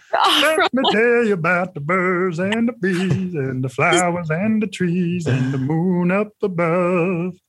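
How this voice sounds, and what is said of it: Imitates another person's voice. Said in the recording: “That's a good impersonation, man.”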